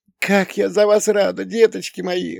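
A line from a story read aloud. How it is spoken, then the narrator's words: Mother's tender sob. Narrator (Russian): умиренно всхлипнула мама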